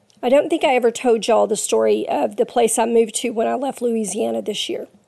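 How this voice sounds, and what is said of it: Voice affected by illness. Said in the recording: “please forgive my voice. I have been ill for about a month now ... it affects my voice”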